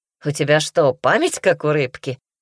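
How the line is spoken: Attempted joke. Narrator (Russian): попытался пошутить Даня

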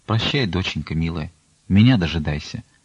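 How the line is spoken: Quiet. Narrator (Russian): тихо промолвила

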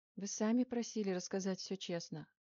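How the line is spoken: Dry reminder. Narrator (Russian): сухо напомнила она

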